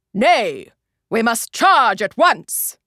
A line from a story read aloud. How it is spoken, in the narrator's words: roared Biter